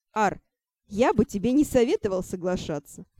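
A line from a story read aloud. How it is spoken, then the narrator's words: Smirking snort. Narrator (Russian): хмыкнул Шон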